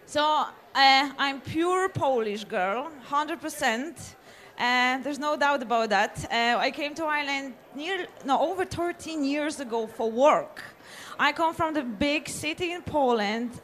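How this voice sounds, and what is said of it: Kildare Irish accent. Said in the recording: “With an accent to match as well. Yeah. It's kind of a Kildare accent you have there,”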